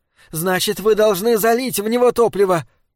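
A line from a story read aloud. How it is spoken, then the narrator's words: Shrill shout. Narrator (Russian): пронзительно закричала Дайна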